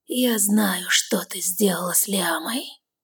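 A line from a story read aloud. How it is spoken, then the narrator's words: Blood-chilling whisper. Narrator (Russian): Шепот, от которого стынет кровь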